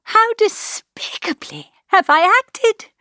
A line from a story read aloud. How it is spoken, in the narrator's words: cried